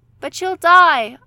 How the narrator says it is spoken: Anya wailed

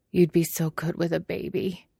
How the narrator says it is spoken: he murmurs

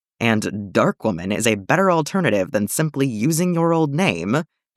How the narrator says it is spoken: asks pointedly

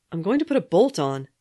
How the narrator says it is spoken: Steve said loudly

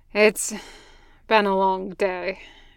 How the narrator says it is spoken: Gunny sighed

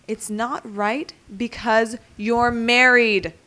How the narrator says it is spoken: Danny says, raising his voice for the first time

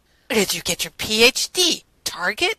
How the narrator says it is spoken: Rodney asked scornfully

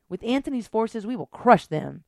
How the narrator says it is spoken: she yelled

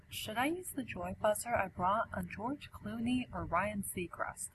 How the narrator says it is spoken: He whispers

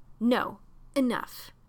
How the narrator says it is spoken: John said firmly

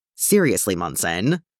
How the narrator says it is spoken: Steve scoffs

